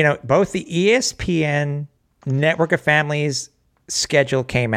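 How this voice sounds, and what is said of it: Usual voice. Nothing is said of it.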